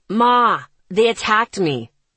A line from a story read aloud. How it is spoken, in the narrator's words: Isaac shouted